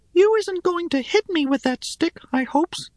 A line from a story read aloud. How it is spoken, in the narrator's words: said Shim, rather meekly